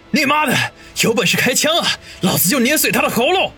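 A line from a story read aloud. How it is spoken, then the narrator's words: Loud roar. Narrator (Chinese): 大声吼道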